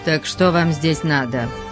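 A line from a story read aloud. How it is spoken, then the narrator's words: Cold question. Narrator (Russian): Все так же холодно спросил Валенсо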